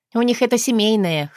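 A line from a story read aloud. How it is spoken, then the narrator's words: Snort. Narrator (Russian): хмыкнула я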